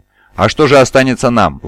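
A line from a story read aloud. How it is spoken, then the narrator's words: Encouraged exclamation. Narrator (Russian): воскликнул Мавин, ободренный словами Статора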